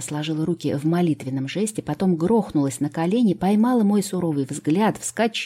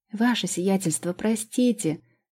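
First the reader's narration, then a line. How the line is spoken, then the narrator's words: Whimpering girl. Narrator (Russian): захныкала девчонка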